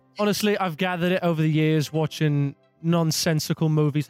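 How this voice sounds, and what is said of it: English accent. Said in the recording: “do you practice your English accent?”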